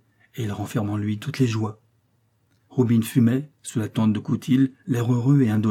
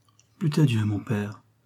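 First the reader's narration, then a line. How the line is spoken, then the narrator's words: Slight sigh. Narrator (French): répondit-elle avec un léger soupir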